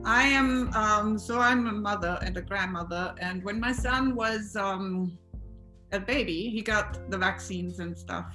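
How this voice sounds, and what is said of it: Austrian-accented English. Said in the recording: “I am from Austria. So please excuse my accent.”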